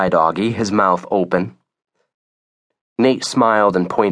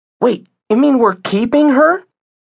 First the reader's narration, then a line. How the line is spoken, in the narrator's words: said excitedly